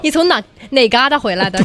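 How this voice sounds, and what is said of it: Put-on Northeastern Chinese accent. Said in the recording (Chinese): “一口东北话 ... 直接就开始拿东北话跟我聊天 ... 全是这种调啊”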